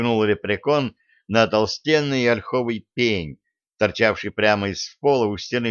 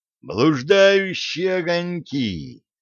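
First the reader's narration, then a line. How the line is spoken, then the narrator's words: Young man's exclamation. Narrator (Russian): воскликнул юноша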